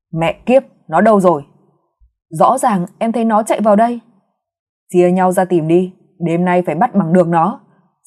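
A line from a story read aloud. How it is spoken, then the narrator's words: Irritated hiss through teeth. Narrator (Vietnamese): Giọng nói bực bội rít qua kẽ răng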